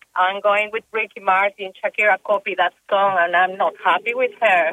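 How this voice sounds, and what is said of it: Latin American Spanish accent. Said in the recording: “now I'm detecting an accent yourself. Are you from Colombia?”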